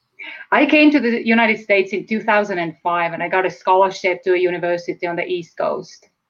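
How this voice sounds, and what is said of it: Estonian accent. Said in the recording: “perhaps you have heard my accent. So I'm from Estonia.”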